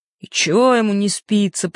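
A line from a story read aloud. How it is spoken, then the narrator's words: Grumbling. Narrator (Russian): пробурчал жаба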